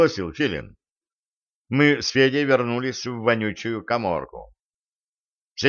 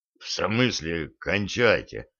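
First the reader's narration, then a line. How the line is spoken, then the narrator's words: Hoarse question. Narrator (Russian): хрипло уточнил Федя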